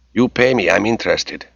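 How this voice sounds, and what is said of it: Strong Spanish accent. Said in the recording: “He had a strong Spanish accent.”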